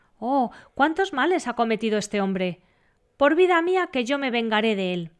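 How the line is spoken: Little lion exclaiming. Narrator (Spanish): Exclamó el leoncito

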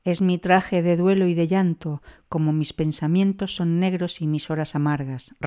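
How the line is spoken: Plain. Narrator (Spanish): respondió el soberano

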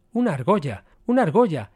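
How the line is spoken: Exclaiming. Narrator (Spanish): exclamó Servis

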